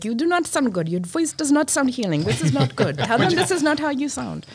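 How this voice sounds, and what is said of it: Put-on German accent. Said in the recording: “your German accent sounds great. ... It is a German / Indian.”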